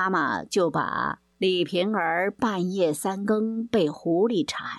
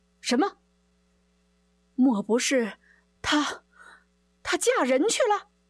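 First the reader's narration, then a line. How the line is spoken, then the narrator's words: Startled cry. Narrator (Chinese): 西门庆听了失声惊叫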